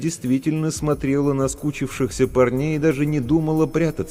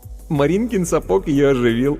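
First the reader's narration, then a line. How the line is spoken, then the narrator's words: Giggling. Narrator (Russian): хихикнув, сказал Вовка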